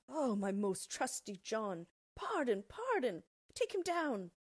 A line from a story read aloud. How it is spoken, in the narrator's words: the king cried